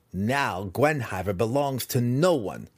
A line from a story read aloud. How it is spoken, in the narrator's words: Massage sneered